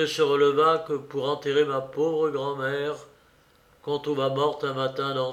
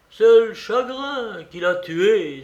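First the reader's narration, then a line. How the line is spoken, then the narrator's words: Exclaimed. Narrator (French): s'écriait-il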